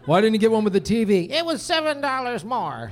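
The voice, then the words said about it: Old-sounding imitation of someone's mother. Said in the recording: “She sounded about George Bush age in that impression.”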